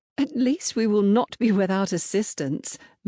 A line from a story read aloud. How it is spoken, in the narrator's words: Madeline smiled brightly